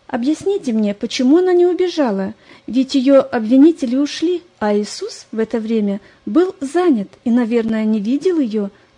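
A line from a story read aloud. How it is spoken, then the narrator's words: Anxious insistent questioning. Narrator (Russian): взволнованно допытывалась Лариса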